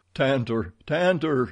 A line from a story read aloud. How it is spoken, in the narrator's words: he cried